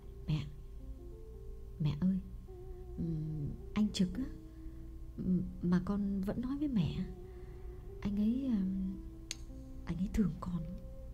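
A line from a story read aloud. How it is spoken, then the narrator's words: Uneasy trembling confession. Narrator (Vietnamese): Phượng bứt rứt chịu không nổi, đành run run thú thật với mẹ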